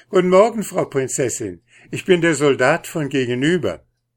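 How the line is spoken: Said with a broad laugh. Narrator (German): lachte über das ganze Gesicht und sagte

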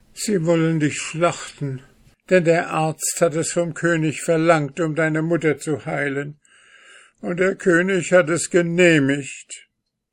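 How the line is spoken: Crying out, sobbing. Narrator (German): gar so schluchze und weine, da rief es

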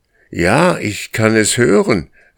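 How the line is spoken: Shouted. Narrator (German): rief Karr

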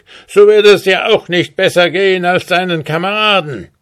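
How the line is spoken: Grim dwarf calling. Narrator (German): rief grimmig der Zwerg

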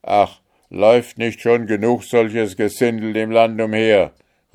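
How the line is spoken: Guard calling out. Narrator (German): rief einer der Wächter

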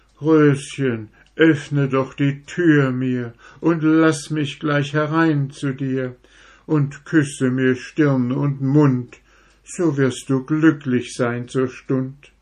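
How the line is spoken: Sad pleading goat. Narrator (German): der weiße Ziegenbock bat so traurig und so flehend

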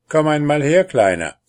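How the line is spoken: Called out. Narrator (German): rief er darauf einem der Kobolde zu

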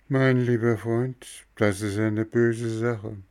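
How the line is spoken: Sad. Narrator (German): sagte traurig

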